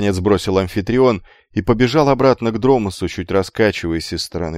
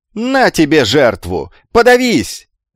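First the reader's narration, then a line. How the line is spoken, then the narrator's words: Yelling, lofty and vulgar. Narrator (Russian): заорал амфитрион, мешая божественное с базарным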